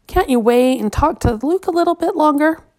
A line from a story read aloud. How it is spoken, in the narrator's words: Mother often begged Matthew and Mark